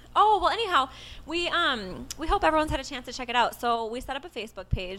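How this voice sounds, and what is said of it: Minnesotan accent. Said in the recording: “this Minnesotan accent, I'm so upset about it.”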